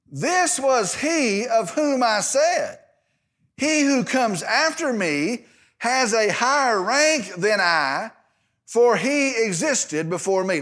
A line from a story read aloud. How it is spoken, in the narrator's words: John cried out, saying